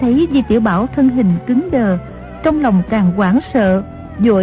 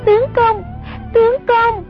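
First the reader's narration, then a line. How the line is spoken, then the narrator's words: Panicked cry. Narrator (Vietnamese): Song Nhi hoảng sợ hồn bất phụ thể, kêu lên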